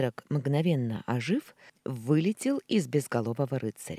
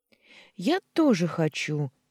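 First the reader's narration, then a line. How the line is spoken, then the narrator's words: Little girl exclaiming. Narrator (Russian): воскликнула малышка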